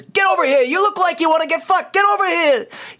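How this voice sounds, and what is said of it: Shouting carnival barker voice. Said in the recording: “yelling ... He's shouting, you know, carnival barking.”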